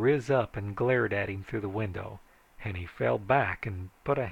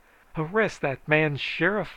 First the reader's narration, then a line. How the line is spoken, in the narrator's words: I hollered